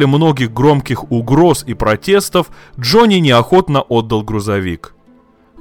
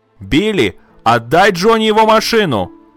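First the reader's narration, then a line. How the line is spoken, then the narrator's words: Loud shout. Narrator (Russian): опять громко закричала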